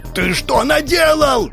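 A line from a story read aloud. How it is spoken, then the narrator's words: Yelling. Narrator (Russian): Орал Вязов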